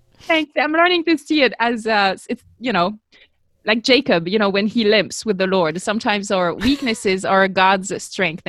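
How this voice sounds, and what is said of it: Non-native English accent. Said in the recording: “As you can tell, I'm still, you know, working on my accent, but it's been like 30 years ... keep your accent, girl. Keep your accent.”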